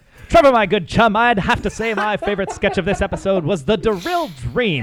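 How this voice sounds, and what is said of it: Put-on transatlantic British radio accent. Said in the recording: “we're doing transatlantic ... I'm just going to be a shitty British accent ... if I'm going to do a radio voice”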